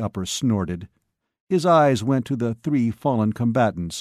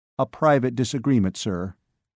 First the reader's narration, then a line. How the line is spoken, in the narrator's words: Joe said evenly